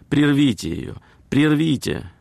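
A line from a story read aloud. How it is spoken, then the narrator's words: Exclaimed. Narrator (Russian): одна дама воскликнула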